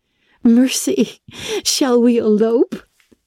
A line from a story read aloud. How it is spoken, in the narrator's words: She laughed